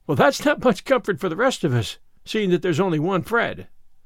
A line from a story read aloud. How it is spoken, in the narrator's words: laughed Anne